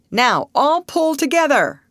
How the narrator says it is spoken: cried the manager

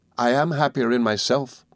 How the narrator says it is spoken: said

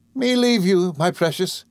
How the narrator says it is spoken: cried Peggotty

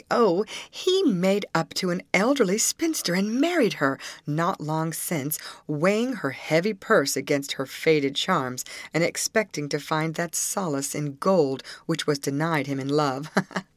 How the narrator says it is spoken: Again she brightened up and answered gaily

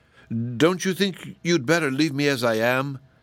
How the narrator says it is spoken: asked Woot in a trembling voice

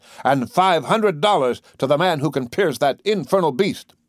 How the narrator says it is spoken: the commander shouted

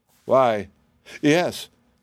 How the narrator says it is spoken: stammered the wizard

